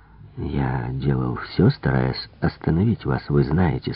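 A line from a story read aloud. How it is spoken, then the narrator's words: Soft. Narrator (Russian): сказал я мягко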